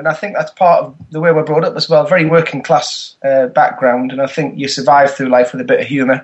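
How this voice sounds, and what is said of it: Northern English accent. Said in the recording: “you still speak Northern proper ... It's that accent that gets me work”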